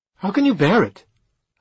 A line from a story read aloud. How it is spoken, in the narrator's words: asked Edda, raising her voice, partly in anger and partly in bewilderment